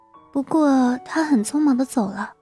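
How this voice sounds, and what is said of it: Quiet, soft-spoken voice. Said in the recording (Chinese): “小声的说”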